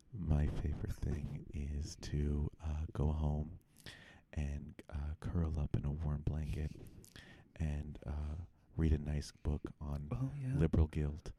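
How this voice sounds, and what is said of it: Put-on NPR radio voice. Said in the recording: “I feel like I should do it in the NPR voice”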